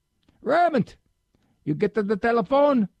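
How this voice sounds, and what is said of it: Imitated Italian-accented English. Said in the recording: “not my grandfather ... He knew how to speak English, but he just had the Italian accent.”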